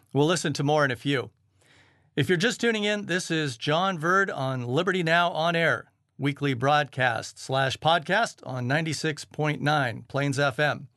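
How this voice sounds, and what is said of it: American accent. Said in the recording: “back in the USA, where I hail from. You might have guessed by the accent.”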